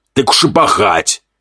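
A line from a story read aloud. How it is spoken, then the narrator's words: Demon's wry chuckle. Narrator (Russian): Хмыкнул демон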